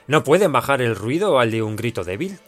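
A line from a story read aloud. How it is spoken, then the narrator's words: Plain. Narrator (Spanish): dijo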